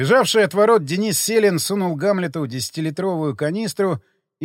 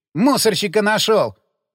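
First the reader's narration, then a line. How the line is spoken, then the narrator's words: Snapping retort. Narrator (Russian): Огрызнулся тот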